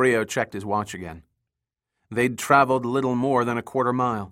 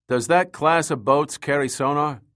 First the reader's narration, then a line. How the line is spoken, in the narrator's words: Max asked